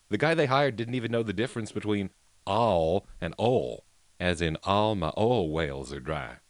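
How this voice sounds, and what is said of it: Bad put-on Southern accent. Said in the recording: “Sorry for the bad accent, but you can tell I'm trying.”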